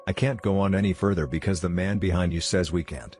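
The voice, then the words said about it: Low growling voice. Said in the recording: “In a low growling voice”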